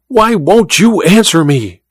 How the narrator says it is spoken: she cried to Olga

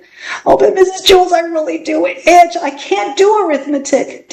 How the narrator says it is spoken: Dana whined

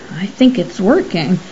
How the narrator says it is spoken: Colgan cleared his throat nervously and murmured

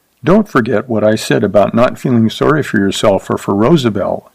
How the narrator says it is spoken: she said quietly

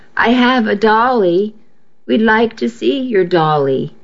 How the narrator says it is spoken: Alvin said

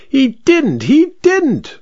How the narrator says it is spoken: shrieked the vicar

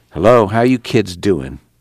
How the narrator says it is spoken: replied softly

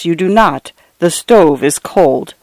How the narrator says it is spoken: replied in a low, flat voice

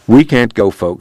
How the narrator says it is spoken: he said

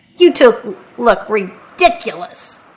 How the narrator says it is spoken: Nate laughed and said

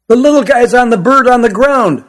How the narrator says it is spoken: shouted the boy in the red baseball cap

